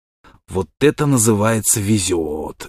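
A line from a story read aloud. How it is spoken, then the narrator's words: Child's loud whisper. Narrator (Russian): громким шепотом сказал ему на ухо малыш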